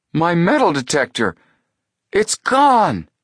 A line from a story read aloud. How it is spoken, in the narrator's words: Chet cried out in dismay